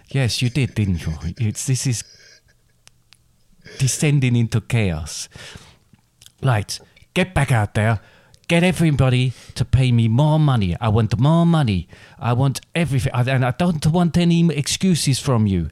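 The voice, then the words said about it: Put-on Italian accent. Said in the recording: “Accent. ... I don't know why I've gone a little bit Italian now”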